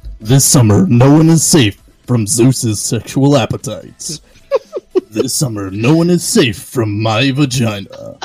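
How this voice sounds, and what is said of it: Dramatic movie trailer announcer voice. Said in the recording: “I have to do voices ... You do the movie voice better.”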